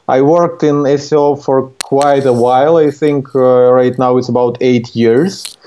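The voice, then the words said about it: Ukrainian accent. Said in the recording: “I was born in Ukraine, and here's where my accent is coming from.”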